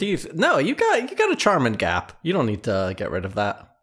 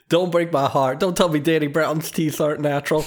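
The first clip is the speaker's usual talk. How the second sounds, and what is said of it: Imitated voice of a casual fan. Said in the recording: “my impression of a guy who got into Danny Brown 2 years ago”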